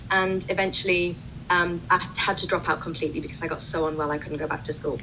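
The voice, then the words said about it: British accent. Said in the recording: “as you can tell from my accent, I'm from the UK”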